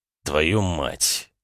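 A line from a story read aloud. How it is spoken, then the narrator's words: Quiet swearing. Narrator (Russian): негромко выругался Клим Орлов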